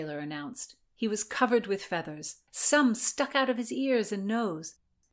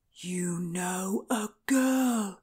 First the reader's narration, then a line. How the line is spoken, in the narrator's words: breathed